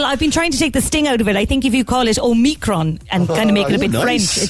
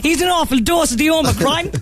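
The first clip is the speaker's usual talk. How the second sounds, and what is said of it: Put-on Cork Irish accent. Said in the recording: “say it in a Cork accent”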